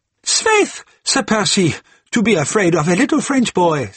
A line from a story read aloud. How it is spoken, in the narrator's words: said Marguerite with a long and merry laugh